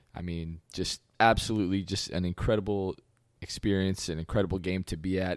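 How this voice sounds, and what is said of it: Slightly hoarse voice. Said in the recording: “my voice is uh, a little bit hoarse from that game”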